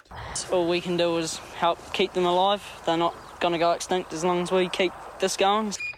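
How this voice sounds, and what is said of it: New Zealand accent. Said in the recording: “our New Zealand accent of the week”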